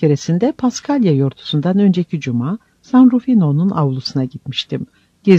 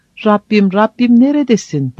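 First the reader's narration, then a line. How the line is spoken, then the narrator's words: Shouting. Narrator (Turkish): derkenki bağırışlarını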